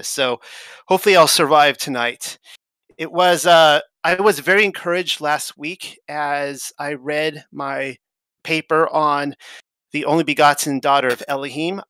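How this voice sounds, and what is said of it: Tired, strained, fading voice. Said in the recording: “I'm exhausted. I'm actually losing my voice right now.”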